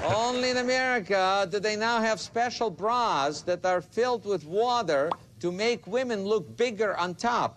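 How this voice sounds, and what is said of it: Heavy Soviet-style accent, tinny. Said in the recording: “sounds like Yakov Smirnoff ... A little bit more accent than Yakov used to have ... he sounded a little too tinny ... He was a Soviet”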